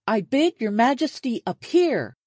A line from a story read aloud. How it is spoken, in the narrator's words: Clooney shouted